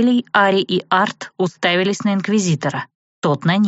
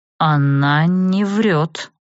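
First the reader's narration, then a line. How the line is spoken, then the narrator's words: Slow. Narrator (Russian): медленно сказал он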